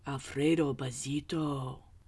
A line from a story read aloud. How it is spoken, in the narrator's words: whispered the crowd